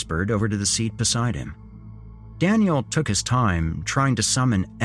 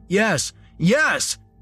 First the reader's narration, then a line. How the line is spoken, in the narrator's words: he shouted